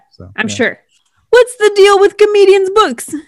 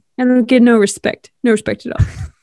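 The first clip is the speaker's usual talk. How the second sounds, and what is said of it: Weak Rodney Dangerfield impression. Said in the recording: “it's not a great impression... That's your Leslie Knope doing Rodney Dangerfield?”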